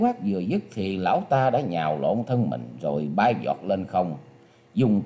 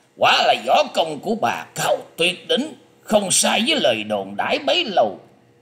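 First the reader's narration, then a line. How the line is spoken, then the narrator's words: Loud shout. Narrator (Vietnamese): Hắn quát to lên rằng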